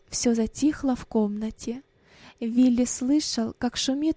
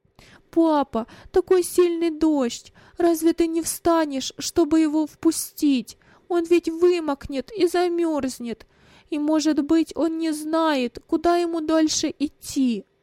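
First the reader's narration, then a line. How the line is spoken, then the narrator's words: Sobbing, broken speech. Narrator (Russian): Рыдания прерывали его речь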